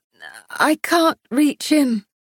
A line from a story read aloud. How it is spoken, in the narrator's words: she gasped out